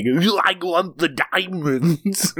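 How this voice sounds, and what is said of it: Imitates another person's over-the-top accent. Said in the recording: “doing the most insane movie accent ever”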